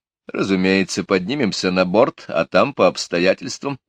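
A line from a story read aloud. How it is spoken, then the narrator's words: Laughing. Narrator (Russian): рассмеялся Мелифаро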